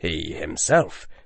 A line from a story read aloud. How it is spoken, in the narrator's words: the chief warlock said quietly